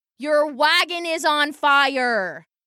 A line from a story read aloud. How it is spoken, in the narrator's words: screamed Randy over the panicking crowd